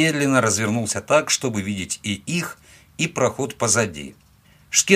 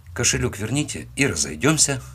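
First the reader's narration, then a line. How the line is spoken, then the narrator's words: Calm. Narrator (Russian): спокойно сказал я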